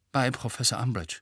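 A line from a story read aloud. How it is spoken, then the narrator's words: Murmured. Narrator (German): murmelte Harry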